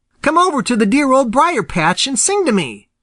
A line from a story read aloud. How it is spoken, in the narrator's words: cried Peter